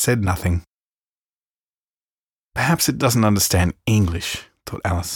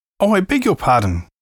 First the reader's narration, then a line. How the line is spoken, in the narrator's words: cried Alice hastily, afraid she had hurt the poor animal's feelings